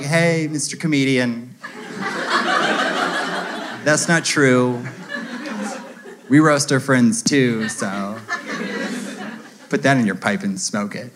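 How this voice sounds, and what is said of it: Impression of a certain woman. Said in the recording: “That's not an impression of all women, but you know that woman I'm doing an impression of.”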